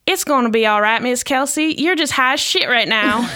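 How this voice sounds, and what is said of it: Put-on southern American accent. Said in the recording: “In his adorable southern accent”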